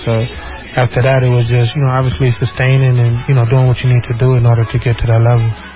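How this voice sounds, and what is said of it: American-sounding accent. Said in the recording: “this is more American than Nigerian, you know, with the way you speak, the accent”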